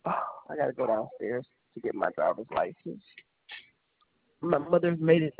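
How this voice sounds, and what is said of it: Sick voice from a cold. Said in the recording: “I got a cold. I sound terrible.”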